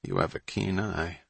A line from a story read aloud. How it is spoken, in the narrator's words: mumbled Hatch, still too off balance from the encounter